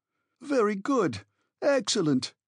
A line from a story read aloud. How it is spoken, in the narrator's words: cried my uncle